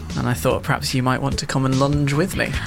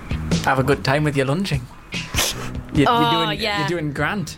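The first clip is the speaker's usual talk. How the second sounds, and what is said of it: Put-on Geordie accent. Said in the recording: “A Geordie accent.”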